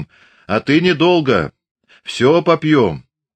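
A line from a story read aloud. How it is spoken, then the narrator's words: Drunken shout. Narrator (Russian): Захмелевший Прохор крикнул вслед им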